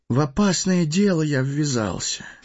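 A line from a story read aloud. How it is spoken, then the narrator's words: Sad sigh. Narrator (Russian): печально вздохнул Фродо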